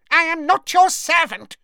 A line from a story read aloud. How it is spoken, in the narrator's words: he squeaked